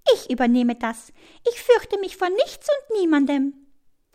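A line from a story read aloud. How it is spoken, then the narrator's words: Hummingbird peeping. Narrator (German): piepst der Kolibri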